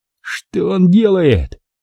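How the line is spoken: Commander yelling. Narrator (Russian): буквально орал ротный

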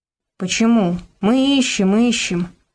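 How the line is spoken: Sigh. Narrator (Russian): вздохнул Богдан

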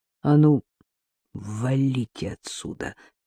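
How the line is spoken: Quick, through teeth. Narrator (Russian): процедил Сергей живо

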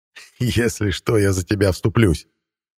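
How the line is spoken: Laughing. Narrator (Russian): рассмеялся мадьяр

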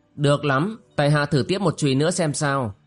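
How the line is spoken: Cold reply. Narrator (Vietnamese): Tiêu Lĩnh Vũ lạnh lùng đáp

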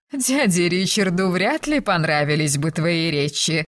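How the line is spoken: Laugh then serious sigh. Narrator (Russian): рассмеялась, но тут же посерьезнее вздохнула

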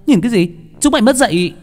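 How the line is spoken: Girl shouting. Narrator (Vietnamese): Cô gái la lên

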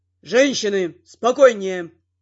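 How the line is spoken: Flustered captain's growl. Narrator (Russian): рыкнул растерянный сотник

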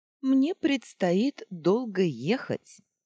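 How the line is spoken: Deliberately loud. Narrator (Russian): сказала Адейла нарочито громко

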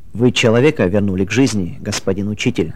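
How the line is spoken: Plain. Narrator (Russian): сказал доктор

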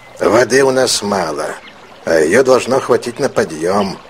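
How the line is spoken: Gloomy. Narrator (Russian): Сакура мрачно произнес

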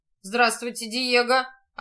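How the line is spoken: Gloomy reply. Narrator (Russian): ответил мрачно сеньор Амброзио

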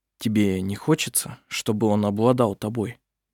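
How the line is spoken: Soft, after pause. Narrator (Russian): После небольшой паузы он мягко произнес

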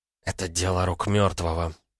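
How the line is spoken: Whisper. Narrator (Russian): прошептала Петра

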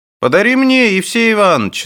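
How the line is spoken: Shout from the crowd. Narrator (Russian): закричал из толпы Прошка

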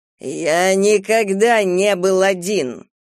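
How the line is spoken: Growled. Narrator (Russian): прорычал Кастел

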